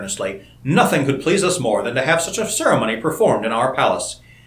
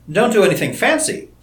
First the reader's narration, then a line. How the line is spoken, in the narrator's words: said Seaton hastily